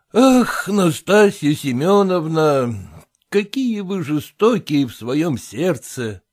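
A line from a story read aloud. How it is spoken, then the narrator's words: Insistent, with heavy sigh. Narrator (Russian): Продолжал стоять на своем Селезенкин и тяжело вздохнул, произнеся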